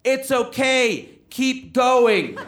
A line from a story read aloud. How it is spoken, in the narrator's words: someone in the audience yelled out